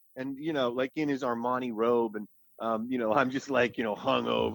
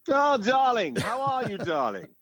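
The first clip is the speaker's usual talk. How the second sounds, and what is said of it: Imitated English accent. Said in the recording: “in that English accent”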